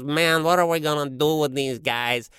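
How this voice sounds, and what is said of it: Cartoon weasel gangster sidekick voice. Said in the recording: “I could kind of do the voice of one of those weasels ... they're the gangster's sidekick”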